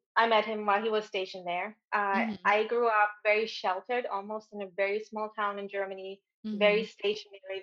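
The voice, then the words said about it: German accent in English. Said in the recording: “I'm originally from Germany. If you haven't heard the accent yet, it's going to come out.”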